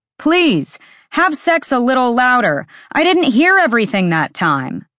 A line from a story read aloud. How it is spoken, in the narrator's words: Ethan yelled from the other side of the apartment